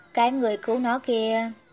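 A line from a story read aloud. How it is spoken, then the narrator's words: Sighing, curious question. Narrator (Vietnamese): Mẹ Dịch Thiên thở dài, có phần tò mò hỏi Giảng Ninh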